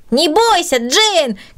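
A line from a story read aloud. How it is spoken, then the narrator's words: Shouting. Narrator (Russian): кричал Петя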